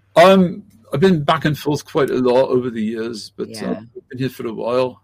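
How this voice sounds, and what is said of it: Speaks with an accent. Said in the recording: “I love your accent.”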